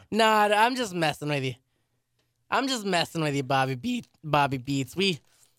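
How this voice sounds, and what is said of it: Voice cracks. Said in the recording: “my voice cracked”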